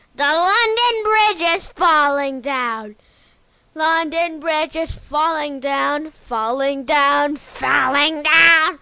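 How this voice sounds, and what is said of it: Whispered old witch character voice. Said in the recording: “You're like whispering ... I'm an old witch ... I'm green and ugly”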